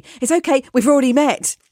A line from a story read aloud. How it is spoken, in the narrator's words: I interrupted her and blurted out breathlessly